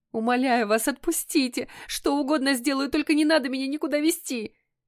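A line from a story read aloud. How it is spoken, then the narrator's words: Loud pleading sob. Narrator (Russian): громко всхлипнула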